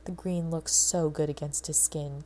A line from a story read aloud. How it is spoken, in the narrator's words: Cadman agreed with a sigh